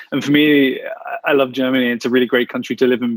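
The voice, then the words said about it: British English accent. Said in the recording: “you can probably tell from my accent that I'm a Brit”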